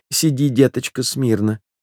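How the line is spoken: Calm grandmother. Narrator (Russian): заметила спокойно бабушка

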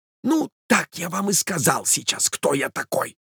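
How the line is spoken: Stranger's whisper. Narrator (Russian): прошептал странный незнакомец

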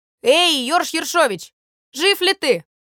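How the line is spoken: Shout. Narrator (Russian): крикнет

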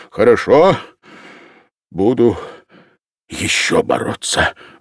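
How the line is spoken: Sighing. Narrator (Russian): вздохнул Ильин

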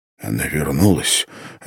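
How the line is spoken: Whisper. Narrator (Russian): отвечал он мне шепотом

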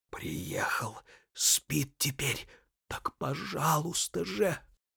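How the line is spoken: Mysterious hiss. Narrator (Russian): Иван Петрович таинственным тоном прошипел

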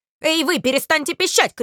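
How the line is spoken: Shouted. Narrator (Russian): крикнул

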